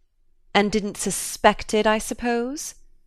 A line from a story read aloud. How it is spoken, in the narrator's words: Glenard sneered